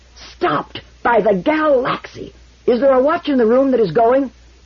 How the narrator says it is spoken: His voice was a roar

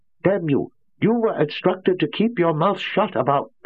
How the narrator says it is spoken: He ground to a choking halt

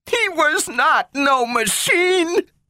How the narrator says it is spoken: screamed Gloria, fiercely and ungrammatically

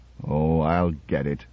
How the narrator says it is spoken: muttered Madarian

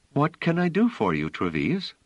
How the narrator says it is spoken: She said with a smile, and in a perfectly pleasant tone

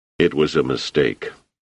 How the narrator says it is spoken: Selden muttered

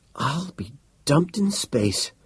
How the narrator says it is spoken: he breathed

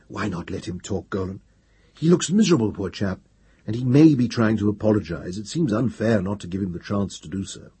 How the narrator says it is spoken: whispered

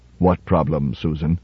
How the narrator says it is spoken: He said softly

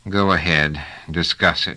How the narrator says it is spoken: said Trevise, with something that was remarkably like a groan

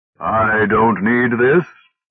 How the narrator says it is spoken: he said, his voice rising into a distinct note of triumph

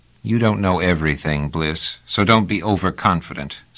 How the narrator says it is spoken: said Trevise sullenly

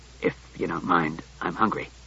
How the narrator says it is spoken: Klusar muttered

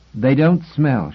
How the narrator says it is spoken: she said sharply

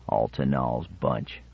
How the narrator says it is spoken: one of the other cutthroats murmured

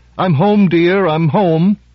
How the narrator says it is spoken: said in a loud, cheery voice

